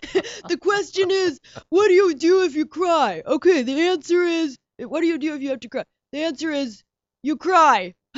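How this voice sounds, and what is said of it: Imitates another person's voice. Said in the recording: “my best David Mamet impression.”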